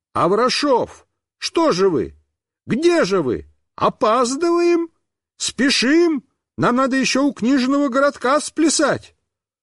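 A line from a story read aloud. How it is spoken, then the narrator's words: Clown shouting. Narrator (Russian): какой-то клоун закричал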